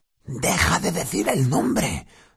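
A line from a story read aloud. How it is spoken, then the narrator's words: Terrified whisper. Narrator (Spanish): dijo Ron en un aterrorizado susurro, como si pensara que Voldemort pudiera oírlos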